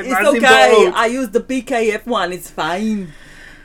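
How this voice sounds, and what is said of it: Badly done put-on accent. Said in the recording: “That's terrible accent. ... But it was good.”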